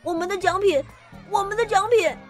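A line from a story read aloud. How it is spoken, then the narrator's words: Noisy crowd shouting. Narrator (Chinese): 大家乱哄哄地喊着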